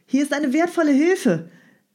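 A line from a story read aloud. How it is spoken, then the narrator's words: Calling out. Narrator (German): rief Strogoff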